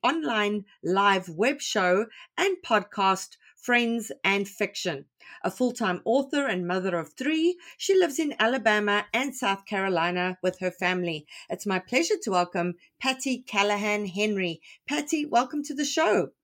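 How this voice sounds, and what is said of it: Melodic accent. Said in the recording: “It sounds so melodic in your accent.”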